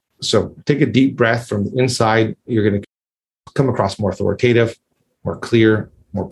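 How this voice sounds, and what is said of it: Usual voice. Nothing is said of it.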